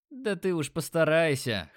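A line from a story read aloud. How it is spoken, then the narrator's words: Laughing. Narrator (Russian): хохотнул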